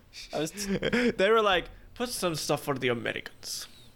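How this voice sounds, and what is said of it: Put-on Russian accent. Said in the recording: “I don't know why I said that in like a Russian accent”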